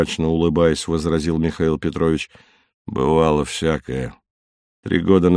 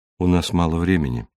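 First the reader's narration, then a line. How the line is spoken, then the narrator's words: Soft interruption. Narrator (Russian): мягко перебил его Ван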